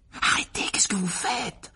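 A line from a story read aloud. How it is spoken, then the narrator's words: Whisper. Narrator (French): chuchota Harry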